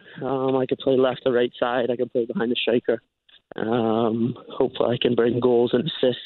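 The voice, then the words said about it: Mixed Scottish, Northern Irish-sounding accent. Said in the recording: “Have you always had a bit of a Scottish accent? ... everyone says I sound Irish. ... it's a mixture of everything. ... Northern Ireland, so you can maybe say that was the first accent that I picked up. ... "Oh, where are you from in Ireland?"”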